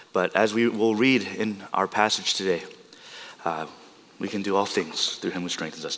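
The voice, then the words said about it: Rough, strained voice. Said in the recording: “excuse my voice. Just been coughing all week.”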